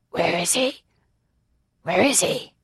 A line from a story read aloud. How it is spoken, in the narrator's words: Iarath wheezed out in his smoke-ruined voice